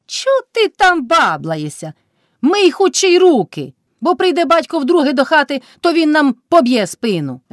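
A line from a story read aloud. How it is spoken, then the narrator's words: Shout. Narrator (Ukrainian): вже крикнула Кайдашиха на милашку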